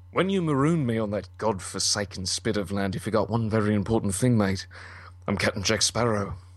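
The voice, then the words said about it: Pirate character voice, slightly cracked. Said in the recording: “My voice is a little cracked ... I was a Jack Sparrow impersonator”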